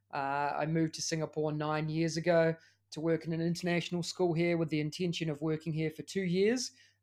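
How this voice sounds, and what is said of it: New Zealand accent. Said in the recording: “As you can tell by the accent, I'm also from New Zealand.”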